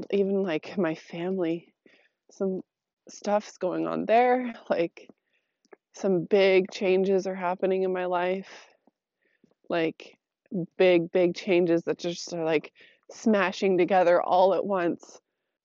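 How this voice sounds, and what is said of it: Slightly off voice after cold. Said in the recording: “my voice is a little funky today. Because I'm on the other side of a cold.”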